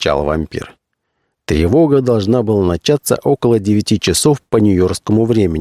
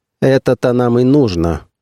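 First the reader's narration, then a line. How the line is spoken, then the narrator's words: Cold voice. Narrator (Russian): холодно прозвучал голос Фаусона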